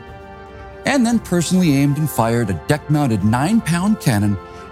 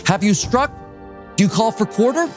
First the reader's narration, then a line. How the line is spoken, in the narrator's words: Royal Navy Captain Richard Pearson shouted across to the American captain